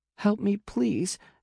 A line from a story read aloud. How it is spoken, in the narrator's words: cries